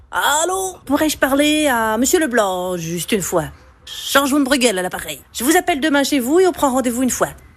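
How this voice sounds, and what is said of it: Put-on Belgian French accent. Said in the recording (French): “l'accent belge, je maîtrise à moitié ... Je prends l'accent belge ?”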